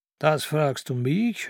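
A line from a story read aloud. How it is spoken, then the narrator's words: Old man mocking. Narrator (German): höhnte der Alte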